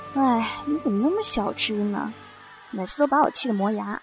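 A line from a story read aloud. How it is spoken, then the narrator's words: Teasing sigh. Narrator (Chinese): 她总是故意对我感叹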